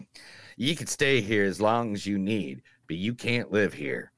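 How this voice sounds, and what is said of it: Put-on southern accent. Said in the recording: “gonna do the southern accent for every single quote in this movie”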